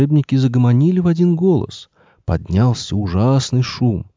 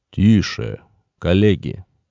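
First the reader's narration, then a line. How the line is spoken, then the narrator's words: Stern. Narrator (Russian): строго произнес он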